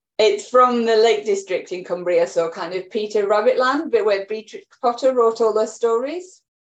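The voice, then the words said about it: Cumbrian English accent. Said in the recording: “an accent that sounds distinctly un-New Zealand ... a very hard accent to get rid of”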